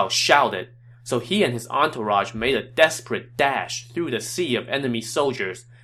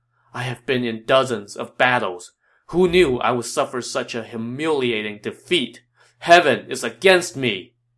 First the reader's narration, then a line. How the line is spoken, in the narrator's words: Yuan Shao sighed